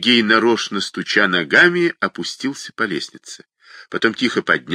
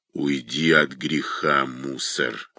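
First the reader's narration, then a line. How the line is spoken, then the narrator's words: Strained, forced out. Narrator (Russian): выдавил он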